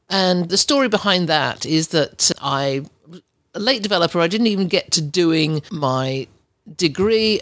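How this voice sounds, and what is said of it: English accent. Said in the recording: “as you can tell by my accent, I'm English”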